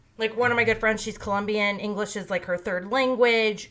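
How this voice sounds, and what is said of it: American Midwestern accent. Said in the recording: “people meet me and they'll like assume I'm from the Midwest ... I talk like a white lady from the Midwest ... Midwest accent is kind of like no accent”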